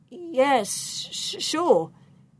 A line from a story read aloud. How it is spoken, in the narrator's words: The dragon looked very strong, so he stammered